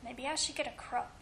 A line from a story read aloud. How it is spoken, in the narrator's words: he muttered